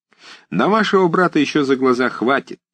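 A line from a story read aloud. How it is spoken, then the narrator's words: Cheerful objection. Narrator (Russian): весело возразил Паклин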